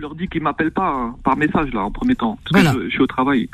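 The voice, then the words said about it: Slight Corsican accent. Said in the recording (French): “j'aime bien son accent, c'est gentil. Un accent un petit peu corse”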